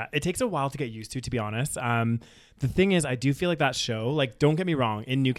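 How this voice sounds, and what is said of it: Usual voice. Nothing is said of it.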